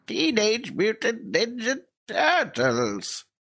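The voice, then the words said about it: Old man character voice. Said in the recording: “That's my Krang voice... Why do you sound like an old man?”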